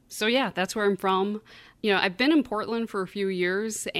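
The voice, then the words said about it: Great Lakes Midwestern accent, stretched vowels. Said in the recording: “the accent that you hear is, I guess, sort of a Great Lakes, Midwestern sort of accent. We really stretch out our vowel sounds ... They're very harsh sounding”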